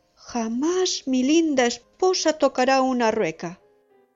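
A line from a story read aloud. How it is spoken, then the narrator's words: Frightened young man exclaiming. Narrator (Spanish): Asustado, exclamó el hijo de la reina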